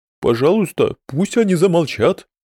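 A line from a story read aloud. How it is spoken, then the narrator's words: Moan. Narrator (Russian): простонал Фердус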